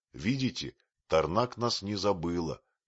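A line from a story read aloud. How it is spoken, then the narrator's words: Plain. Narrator (Russian): сказал Катука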